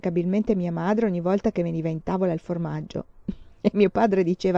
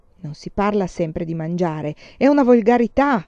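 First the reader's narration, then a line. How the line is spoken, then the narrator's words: Thundering. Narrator (Italian): tuonava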